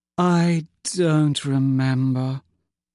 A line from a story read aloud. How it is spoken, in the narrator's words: she said dreamily